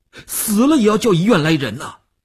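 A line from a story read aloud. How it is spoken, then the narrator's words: Tense, nearly shouting. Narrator (Chinese): 吴长天头皮一紧，他几乎要喊起来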